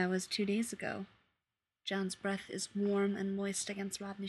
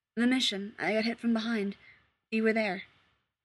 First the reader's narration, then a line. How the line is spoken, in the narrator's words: his voice shakes a little when he says